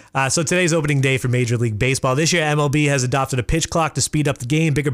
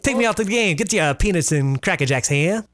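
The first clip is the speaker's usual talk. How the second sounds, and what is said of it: Old-timey transatlantic accent. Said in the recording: “transatlantic accent? ... The old-timey talk.”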